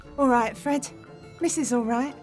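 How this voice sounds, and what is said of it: Sudden switch to Cockney accent. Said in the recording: “sweet old lady voice has a sudden temporary change to a Cockney accent.”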